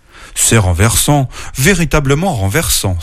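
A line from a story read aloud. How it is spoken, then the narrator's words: Exclaim. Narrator (French): s'écria-t-il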